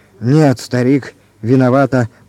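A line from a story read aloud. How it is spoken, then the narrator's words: Grumbled. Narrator (Russian): проворчал Арнольд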